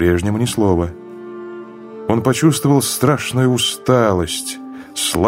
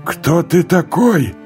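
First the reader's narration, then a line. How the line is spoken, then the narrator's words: Shouted again. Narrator (Russian): крикнул Лафарж снова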